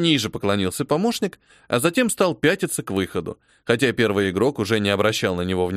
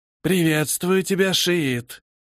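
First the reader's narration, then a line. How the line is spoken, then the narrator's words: Creature's hiss. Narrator (Russian): прошипело существо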